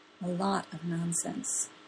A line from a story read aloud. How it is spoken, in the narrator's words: Gwen says softly